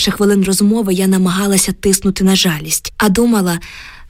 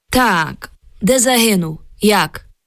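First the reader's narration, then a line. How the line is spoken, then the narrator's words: Metallic voice. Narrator (Ukrainian): заговорив металевим голосом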